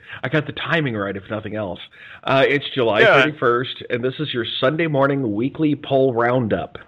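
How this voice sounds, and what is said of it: Usual voice. Nothing is said of it.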